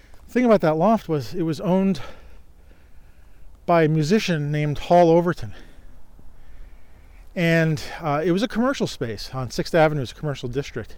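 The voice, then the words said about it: Out of breath, breathy speech. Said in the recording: “I'm walking up a hill, so I'm out of breath here”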